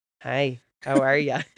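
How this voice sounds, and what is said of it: SpongeBob cartoon character voice. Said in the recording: “Very good impression ... that's like one of the only impressions I'm good at”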